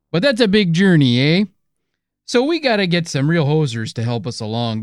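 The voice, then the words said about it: Hackneyed put-on Canadian accent. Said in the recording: “Clearly you're trying to do some type of Canadian accent, even though it's pretty hackneyed.”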